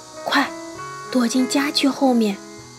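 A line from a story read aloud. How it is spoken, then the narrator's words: Urgent whisper. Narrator (Chinese): 凶巴巴夫人过来了，他小声说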